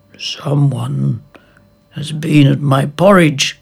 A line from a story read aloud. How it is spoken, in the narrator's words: growled the father bear